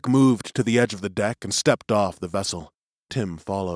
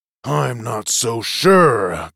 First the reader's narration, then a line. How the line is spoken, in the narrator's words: growled Bailey